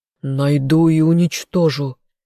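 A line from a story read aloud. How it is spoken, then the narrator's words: Growled. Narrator (Russian): прорычал Калиб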